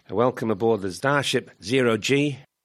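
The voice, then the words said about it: Bad put-on Australian accent. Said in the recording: “my terrible Australian accent”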